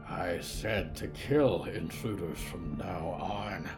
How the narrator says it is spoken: Solomon grumbled

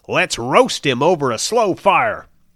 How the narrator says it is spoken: someone shouted

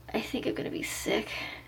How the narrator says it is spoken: croaked Melanie

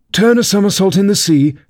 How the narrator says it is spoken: cried the Mock Turtle, capering wildly about

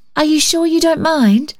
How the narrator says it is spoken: she called in a sweet high tone

